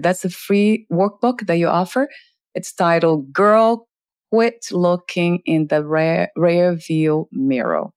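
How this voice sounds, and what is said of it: Portuguese accent. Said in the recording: “My Portuguese accent.”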